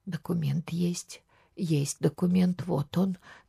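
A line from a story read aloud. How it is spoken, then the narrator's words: Trembling voice. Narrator (Russian): дрожащим голосом говорила она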